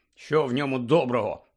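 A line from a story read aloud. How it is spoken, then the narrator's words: Grumbled. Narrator (Ukrainian): буркнув Рон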